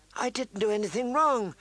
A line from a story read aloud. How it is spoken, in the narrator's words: Sansa pleaded with him